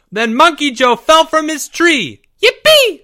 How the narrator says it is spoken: squealed Porge

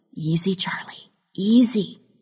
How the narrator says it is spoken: she whispered

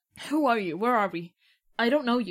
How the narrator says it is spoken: extremely shakily will sign

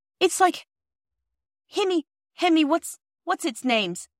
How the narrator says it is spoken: gasped

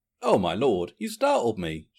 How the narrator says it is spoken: she exclaimed

